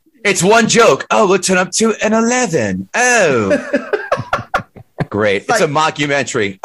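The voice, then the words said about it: Put-on English accent. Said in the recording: “That's such a good English accent. ... He does a great British.”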